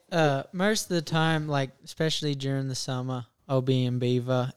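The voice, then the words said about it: Australian accent. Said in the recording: “when you're from Australia ... I'm sure people picked up on your accent”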